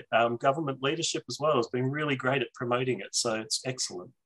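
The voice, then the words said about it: Australian accent. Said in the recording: “remember, we're upside down and on the other side of the planet here in Australia. So, and again, I'm happy to insert subtitles for anything that people may not understand about my accent.”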